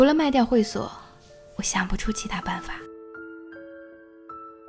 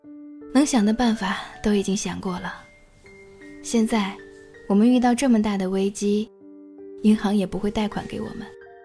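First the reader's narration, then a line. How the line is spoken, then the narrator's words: Calm, smiling. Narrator (Chinese): 他笑着，神情淡然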